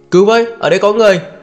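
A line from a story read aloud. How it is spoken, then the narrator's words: Shouting. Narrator (Vietnamese): Hà Minh lên lập tức hét lên trời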